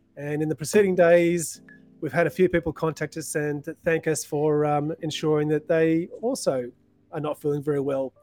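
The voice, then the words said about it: Slightly sick, hoarse voice. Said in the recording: “I'm slowly getting over it. You can hear it in my voice a little bit.”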